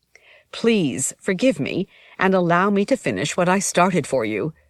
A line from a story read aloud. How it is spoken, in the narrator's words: said